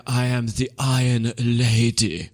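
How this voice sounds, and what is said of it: Margaret Thatcher impression, drawn-out sentence endings. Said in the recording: “do a Margaret Thatcher impression ... she really sort of extends out the end of her sentence”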